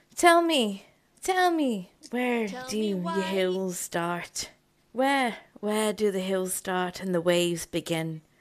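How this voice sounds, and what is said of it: Put-on Irish accent, not very good. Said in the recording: “I do an Irish accent. I don't even think I do it properly.”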